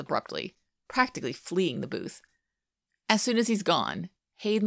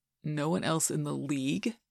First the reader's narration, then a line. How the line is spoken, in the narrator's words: Scott asks slowly